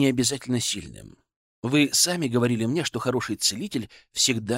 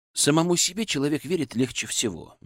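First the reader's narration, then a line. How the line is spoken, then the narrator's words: Gentle. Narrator (Russian): мягко сказал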